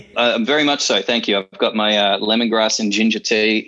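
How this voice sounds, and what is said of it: Australian accent. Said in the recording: “From my accent, you can tell that it's part of my bloodline ... you are from Australia”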